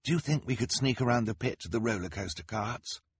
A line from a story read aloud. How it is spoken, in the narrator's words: Klaus murmured to his sister